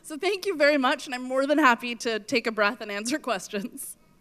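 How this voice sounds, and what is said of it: Hoarse, fading voice. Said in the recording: “I'm losing my voice ... otherwise you're just gonna find me coughing again ... I'm losing my voice up here.”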